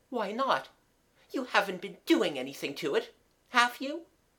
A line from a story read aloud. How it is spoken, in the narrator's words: Mabel sharply asked